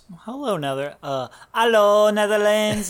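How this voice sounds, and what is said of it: Poor imitation of a Dutch accent. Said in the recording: “Is that how they talk? ... my poor impression of them”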